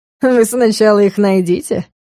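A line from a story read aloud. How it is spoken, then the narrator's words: Dragon's short laugh. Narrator (Russian): хохотнул дракон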